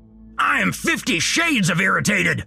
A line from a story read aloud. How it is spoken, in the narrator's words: Earl shouted